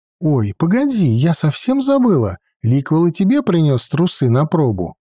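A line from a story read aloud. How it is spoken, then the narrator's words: Exclaiming. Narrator (Russian): воскликнула Адельхейд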